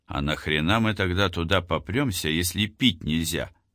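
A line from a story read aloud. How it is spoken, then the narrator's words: Low grumble. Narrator (Russian): Василь вполне резонно проворчал вполголоса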